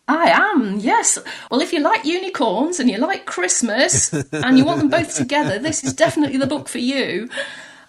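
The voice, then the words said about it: Fancy-sounding accent. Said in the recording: “I don't know if it's just your accent, but everything you say is sounding so very fancy.”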